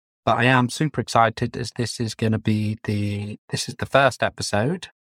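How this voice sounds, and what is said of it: Flat monotone voice. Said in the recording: “you would never guess that from the tone of my voice, because I tend to have quite a monotone voice”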